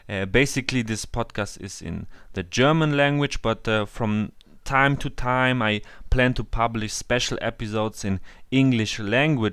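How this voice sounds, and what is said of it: German accent in English. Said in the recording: “my German accent and my not so perfect English”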